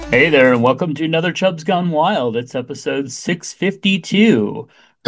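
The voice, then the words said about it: Fake game show announcer voice. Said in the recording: “fake voice ... I was doing my Don Pardo ... hosting a game show”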